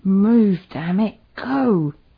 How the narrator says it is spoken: Matt, clutching his bleeding leg, shouted at her through gritted teeth

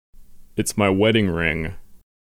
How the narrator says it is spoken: Sewell protested

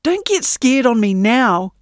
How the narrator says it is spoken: snapped Yinny

